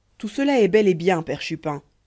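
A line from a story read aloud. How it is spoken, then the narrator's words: Curt interruption. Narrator (French): interrompit-elle d'un ton fort sec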